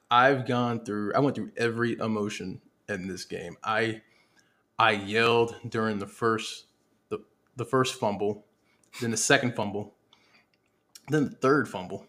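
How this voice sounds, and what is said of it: Strained voice cutting in and out. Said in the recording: “My voice keeps going in and out because of them Cowboys.”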